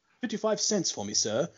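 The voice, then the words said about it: Prim proper British drawl, Mandrake. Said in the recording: “his Mandrake ... the British etiquette, like, prim, proper drawl of it all”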